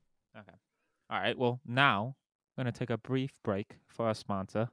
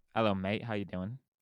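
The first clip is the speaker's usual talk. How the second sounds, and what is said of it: Attempted British accent, sounding Australian. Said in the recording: “do you have a good British accent? ... That was more Australian, I feel like.”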